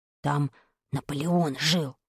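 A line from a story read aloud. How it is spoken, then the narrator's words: Quick whisper. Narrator (Russian): успел прошептать мне Вадик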